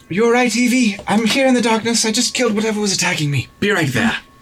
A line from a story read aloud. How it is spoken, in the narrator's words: I just shout out